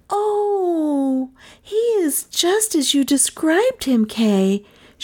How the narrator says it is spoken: she cried

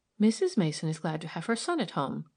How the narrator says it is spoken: she responded quickly

